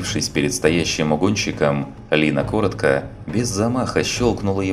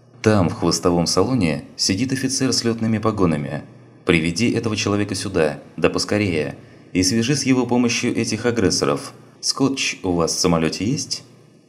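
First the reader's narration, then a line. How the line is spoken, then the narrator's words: Calm, clear. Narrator (Russian): она спокойно и четко произнесла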